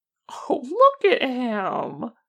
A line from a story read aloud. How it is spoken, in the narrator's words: Granny Wen exclaims